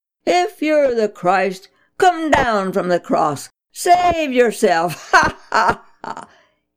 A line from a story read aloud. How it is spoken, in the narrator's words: the self-righteous religious leaders jeering